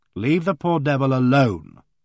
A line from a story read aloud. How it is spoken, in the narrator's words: I said sternly